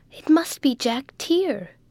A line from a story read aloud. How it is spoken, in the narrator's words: exclaimed Rose suddenly